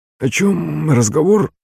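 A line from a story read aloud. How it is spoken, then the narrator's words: Hoarse strangled question. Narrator (Russian): спросил он сиплым, придушенным голосом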